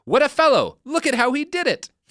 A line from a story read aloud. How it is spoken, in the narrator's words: Stalin would always shout